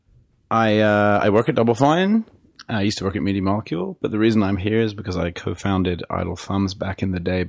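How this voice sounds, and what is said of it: British English accent. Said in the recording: “you sound more British”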